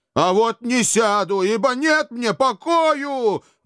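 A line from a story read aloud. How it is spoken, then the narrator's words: Despairing howl. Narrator (Russian): В отчаянии взвыл он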